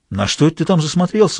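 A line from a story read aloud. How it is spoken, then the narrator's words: Anxious, frightened question. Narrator (Russian): спросил он встревоженным голосом, так как теперь сыщика пугало решительно все, особенно то, чего он не мог видеть или чего не понимал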